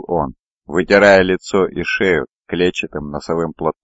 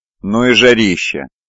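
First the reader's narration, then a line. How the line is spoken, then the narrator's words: Heavy sigh. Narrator (Russian): Он тяжело вздохнул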